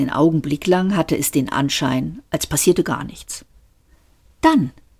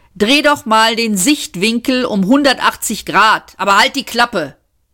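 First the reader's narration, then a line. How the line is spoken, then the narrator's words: Called out. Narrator (German): rief Seyfort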